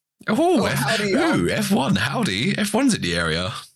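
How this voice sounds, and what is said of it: Weak American accent, still English. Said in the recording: “That was a terrible American accent ... Still too English. Try again.”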